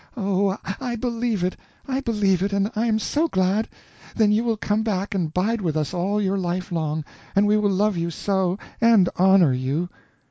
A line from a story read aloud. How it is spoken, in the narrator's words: she said in a happy voice